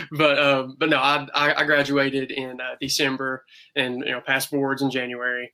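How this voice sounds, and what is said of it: Rural Southern US accent. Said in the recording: “my hick accent”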